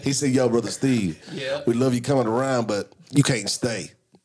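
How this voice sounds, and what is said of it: Put-on Black American accent. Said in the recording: “Why am I doing Black accent? ... you got to do it in the accent”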